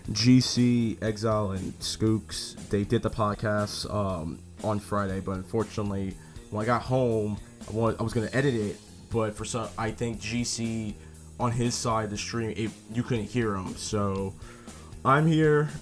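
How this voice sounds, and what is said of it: Hoarse, lost voice. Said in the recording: “my voice is I lost my voice. ... a lot of screaming.”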